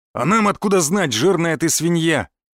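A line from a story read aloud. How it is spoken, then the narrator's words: Hateful bark. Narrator (Russian): рявкнул лысый амбал, с ненавистью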